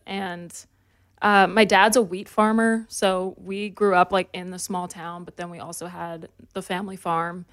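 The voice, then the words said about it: Slight Canadian country accent. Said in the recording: “You have an accent ... not so much of a Canadian one ... A little bit ... it's just a little country accent”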